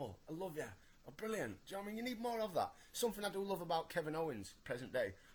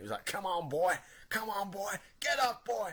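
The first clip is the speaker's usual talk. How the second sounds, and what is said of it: Thick hick American accent. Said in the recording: “in his thick, hick American accent”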